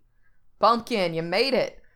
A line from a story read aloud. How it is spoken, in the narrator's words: Jack hollers